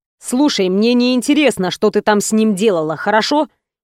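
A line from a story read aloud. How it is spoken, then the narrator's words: Rude interruption. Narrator (Russian): перебил меня грубо Рома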